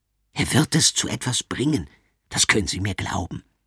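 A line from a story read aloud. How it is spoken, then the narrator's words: Whispering. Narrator (German): flüstert ihnen der Direktor zu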